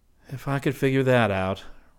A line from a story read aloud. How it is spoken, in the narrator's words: Rick said wearily